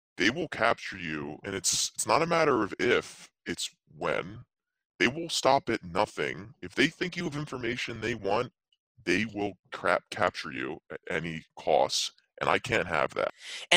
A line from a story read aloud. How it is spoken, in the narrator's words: Bjorn, not quietly, but he says